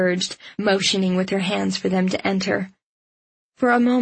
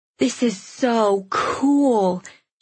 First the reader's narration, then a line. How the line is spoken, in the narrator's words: she breathed